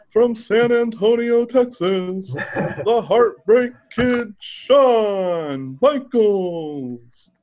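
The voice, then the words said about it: Howard Finkel ring announcer impression. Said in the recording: “best Howard Finkel impression ever.”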